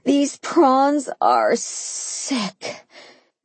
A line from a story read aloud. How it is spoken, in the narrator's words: Mimi moaned